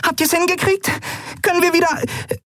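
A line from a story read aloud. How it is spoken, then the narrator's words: Squeaked. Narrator (German): piepste sie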